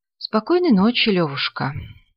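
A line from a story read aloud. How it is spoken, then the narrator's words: Sighing. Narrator (Russian): вздохнул Подтягин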